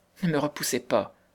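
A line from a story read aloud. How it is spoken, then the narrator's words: Trembling voice. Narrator (French): disait-elle d'une voix tremblante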